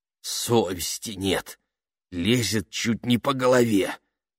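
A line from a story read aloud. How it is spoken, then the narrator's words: Hissed. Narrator (Russian): прошипела она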